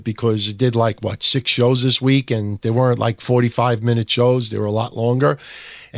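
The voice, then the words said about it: Strained, fading voice. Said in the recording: “I'm losing my voice a little bit ... I'm starting to lose my voice a little bit”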